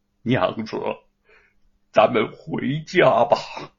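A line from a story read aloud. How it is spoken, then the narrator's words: Soft, tearful, smiling. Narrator (Chinese): 吴承恩抬起泪眼，见他悲痛的脸上竟慢慢浮现出微笑，轻声的说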